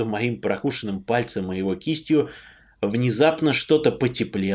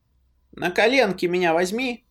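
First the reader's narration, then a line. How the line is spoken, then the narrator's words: Cheerful command. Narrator (Russian): весело скомандовал Кирюха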